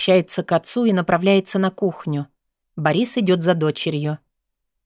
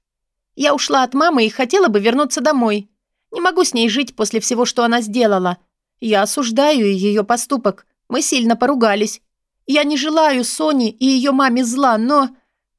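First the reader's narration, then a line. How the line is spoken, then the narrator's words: Deliberately loud. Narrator (Russian): Лена будто нарочито громко произносит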